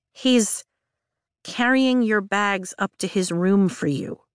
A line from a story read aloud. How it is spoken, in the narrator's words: Mira says slowly